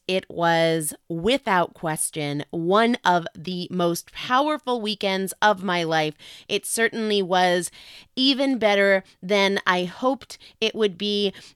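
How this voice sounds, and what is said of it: Tired, froggy voice. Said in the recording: “my voice sounds a little tired, a little froggy”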